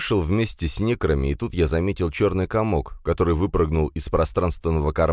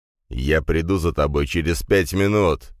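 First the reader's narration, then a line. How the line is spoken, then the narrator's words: Growled. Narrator (Russian): зарычал Дракен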